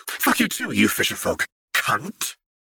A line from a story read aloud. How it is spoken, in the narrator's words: Wren hissed venomously